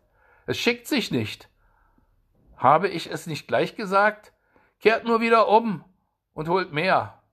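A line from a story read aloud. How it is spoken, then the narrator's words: Soldier calling out. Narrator (German): rief der Soldat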